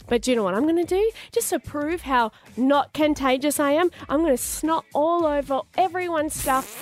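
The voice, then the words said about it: Yelling, loud voice. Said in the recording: “That's why I'm yelling so much, because I can't hear because my ear's so blocked.”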